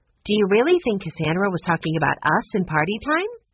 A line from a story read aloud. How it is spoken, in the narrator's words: Violet asked